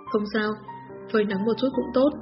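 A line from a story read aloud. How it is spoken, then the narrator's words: Soft laugh. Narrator (Vietnamese): Diêu Mông khẽ cười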